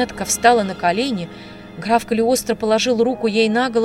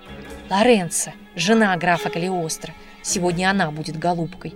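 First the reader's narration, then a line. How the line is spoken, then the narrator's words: Quiet speech. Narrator (Russian): тихонько проговорила Полина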